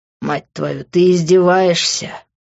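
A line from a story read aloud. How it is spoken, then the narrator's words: Hissed. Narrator (Russian): прошипел я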